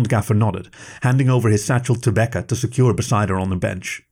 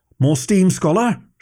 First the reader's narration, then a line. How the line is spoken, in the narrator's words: she called out